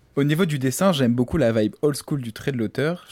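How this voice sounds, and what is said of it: French with an English accent. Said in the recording (French): “elle se fout de la gueule de mon accent... ton accent anglais... J'ai un petit fort... une moumoute sur la langue”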